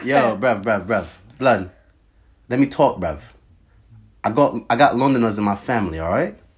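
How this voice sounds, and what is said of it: Bad put-on London accent. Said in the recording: “You're so bad at this fucking accent. ... You suck at this accent.”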